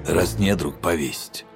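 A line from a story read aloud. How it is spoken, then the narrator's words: Hoarse. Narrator (Russian): хрипло сказал отец Супик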